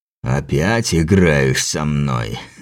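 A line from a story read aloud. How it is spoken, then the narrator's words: Laughing in a strange voice. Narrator (Russian): рассмеялся чужим голосом Теодор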